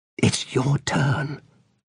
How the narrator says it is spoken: whispered

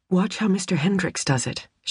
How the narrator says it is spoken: whispered

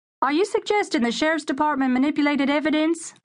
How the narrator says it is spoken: a reporter called out

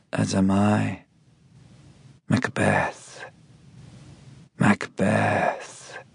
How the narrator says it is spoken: she murmurs

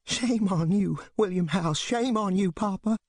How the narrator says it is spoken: Mamie Smallwood cries

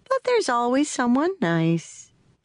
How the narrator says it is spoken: she said, her voice suddenly gone sing-song

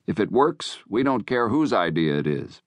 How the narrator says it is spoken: said evenly

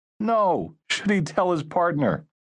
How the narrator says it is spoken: Steve laughed at his own joke

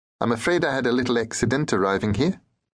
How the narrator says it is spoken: he told me cheerfully

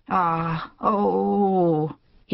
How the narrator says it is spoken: he groaned

